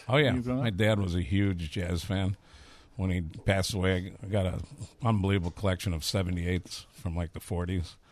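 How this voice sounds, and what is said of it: Strong Chicago accent. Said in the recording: “You've got a real Chicago accent ... I definitely have a Chicago accent.”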